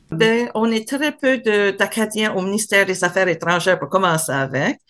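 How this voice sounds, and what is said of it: Acadian French accent. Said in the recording (French): “j'ai un accent particulier ... j'ai jamais, jamais caché mon accent acadien. On va toujours me trouver dans une foule de francophones.”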